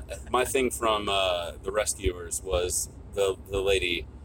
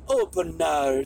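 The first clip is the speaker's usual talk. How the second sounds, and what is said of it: Imitates a character's accented voice. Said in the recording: “because she had that accent.”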